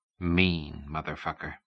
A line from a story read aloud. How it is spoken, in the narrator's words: he whispered to the wind